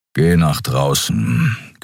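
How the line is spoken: Growling. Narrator (German): knurrte Keru

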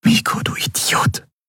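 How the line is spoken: Whispered. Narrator (German): flüsterte

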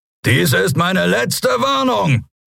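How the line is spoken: Roared. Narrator (German): brüllte er

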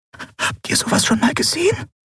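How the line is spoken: Breathy whisper. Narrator (German): hauchte Nelen

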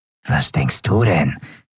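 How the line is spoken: Rough-voiced reply. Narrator (German): gab Grau mit rauer Stimme zurück

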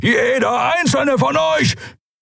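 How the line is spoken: Thundering. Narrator (German): donnerte Keru

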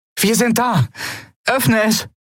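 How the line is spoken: Called out. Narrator (German): rief Andriel

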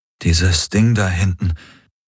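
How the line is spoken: Thick, choked voice. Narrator (German): sagte er mit belegter Stimme

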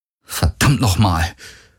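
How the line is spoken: Muttered. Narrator (German): murmelte er

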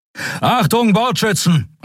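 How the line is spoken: Called out. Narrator (German): rief er

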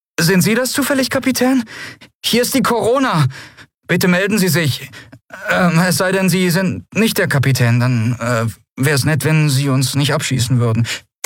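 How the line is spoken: Nervous question. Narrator (German): eine nervöse Stimme fragte

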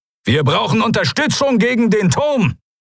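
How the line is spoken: Calling out. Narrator (German): rief er

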